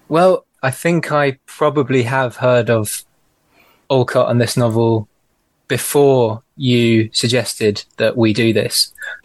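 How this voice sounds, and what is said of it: Liverpool (Scouse) English accent. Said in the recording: “If you couldn't tell by the accent, ... is coming to us from Liverpool.”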